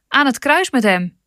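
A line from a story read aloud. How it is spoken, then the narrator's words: Crowd shouting louder. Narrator (Dutch): schreeuwden nog harder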